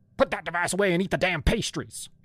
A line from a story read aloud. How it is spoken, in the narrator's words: she barked